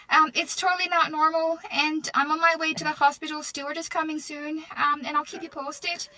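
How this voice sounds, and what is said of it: Irish accent. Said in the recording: “talking in an Irish accent ... she sounds like Conor McGregor”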